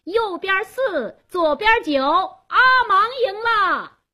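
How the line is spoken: Loud announcing call. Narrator (Chinese): 加斯东做公证人，他高声喊道

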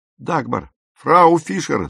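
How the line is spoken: Shouted. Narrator (Russian): закричал Пауль

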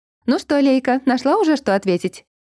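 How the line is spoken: Cheerful calling voice. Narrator (Russian): Бодреньким голоском окликнула меня мама

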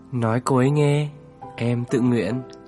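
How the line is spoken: Gentle, smiling. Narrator (Vietnamese): cười đến là dịu dàng

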